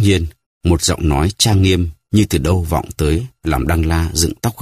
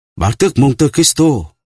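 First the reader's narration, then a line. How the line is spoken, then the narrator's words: Exclaiming cry. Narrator (Vietnamese): Đăng La kêu lên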